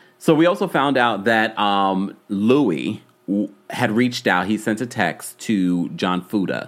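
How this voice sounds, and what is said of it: Usual voice. Nothing is said of it.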